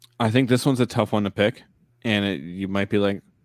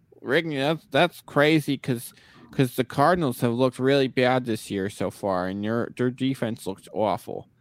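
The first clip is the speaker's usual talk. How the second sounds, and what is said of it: Poor impression of another person's voice. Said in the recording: “a really bad Mike Tyson impersonation”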